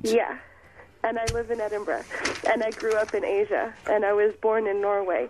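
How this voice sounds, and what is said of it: Mixed American-sounding accent, slightly congested. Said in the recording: “What's that accent you've got there? ... It's a whole big mixture ... I kind of got that accent ... I was going to say you were Canadian ... But you've got an American accent ... you've got a bit of a cold as well”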